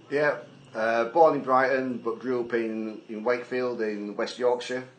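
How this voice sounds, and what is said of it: Non-Southern English accent. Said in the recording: “may detect a non-Southern accent”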